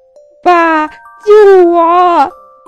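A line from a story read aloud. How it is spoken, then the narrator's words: Shouting while running. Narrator (Chinese): 金刚一边跑一边喊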